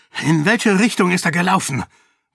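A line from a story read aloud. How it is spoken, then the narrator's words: Sharp demanding voice. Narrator (German): wollte er mit scharfer Stimme von den drei verwirrten Neuankömmlingen wissen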